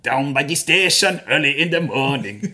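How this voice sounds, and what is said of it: Rasta Froggy character voice. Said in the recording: “how do I sound as Rasta Froggy?”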